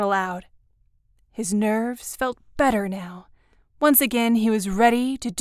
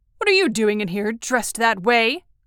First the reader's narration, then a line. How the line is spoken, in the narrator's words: Kroll snapped